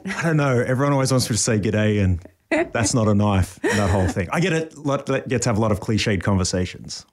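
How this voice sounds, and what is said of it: Australian accent. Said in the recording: “is Australian. Go ahead and show them your accent.”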